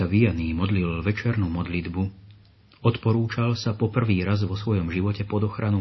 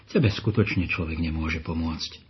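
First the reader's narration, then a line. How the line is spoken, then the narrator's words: Priest sighing. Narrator (Slovak): vzdychol si farár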